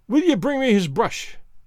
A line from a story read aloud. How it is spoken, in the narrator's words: cries Allan, fiercely